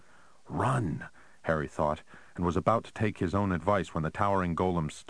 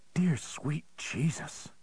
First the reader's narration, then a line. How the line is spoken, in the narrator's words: Connie whispered